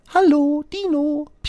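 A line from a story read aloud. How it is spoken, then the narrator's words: Squeaky robin. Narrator (German): piepst das Rotkehlchen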